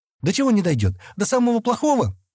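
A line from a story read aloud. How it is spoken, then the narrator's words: Frightened exclamation. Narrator (Russian): испуганно воскликнула Адана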